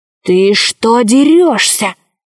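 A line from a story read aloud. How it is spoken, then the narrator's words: Hissed. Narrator (Russian): зашипел крыс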